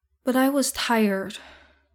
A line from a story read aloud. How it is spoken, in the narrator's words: Izuku sighs, years worth of exhaustion coming out